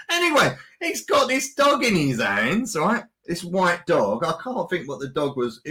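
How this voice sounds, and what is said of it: Cockney East End accent. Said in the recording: “my Cockney East End accent”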